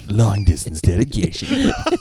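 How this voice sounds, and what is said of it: Imitates a radio countdown host. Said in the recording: “We've all got a Casey impersonation.”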